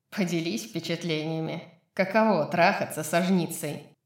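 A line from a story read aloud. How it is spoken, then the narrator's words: Dull growl. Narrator (Russian): Рун глухо зарычал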